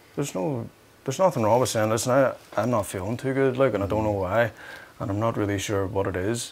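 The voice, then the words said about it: Softened Northern Irish Belfast accent. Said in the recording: “I had to soften the Belfast, which I'm doing right now, so you can understand what I'm saying ... the hardest accent in all of the ... British Isles ... the Northern Irish accent”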